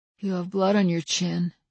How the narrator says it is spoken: said in a small voice

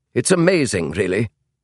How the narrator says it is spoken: said the tall Englishman in the slight Yorkshire accent

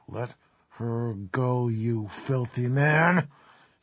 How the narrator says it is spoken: she said in a low and rusty voice

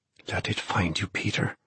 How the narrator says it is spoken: he murmured in the ghostly silence of that storeroom

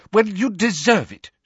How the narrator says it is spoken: she snapped

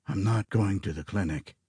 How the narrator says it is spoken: Gray rasped

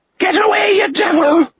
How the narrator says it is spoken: the cracked voice screeched

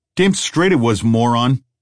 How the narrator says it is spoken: snapped the man with a face

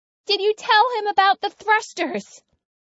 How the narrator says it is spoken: Corey shouts

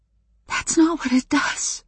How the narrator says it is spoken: I told Adam in a horrified whisper

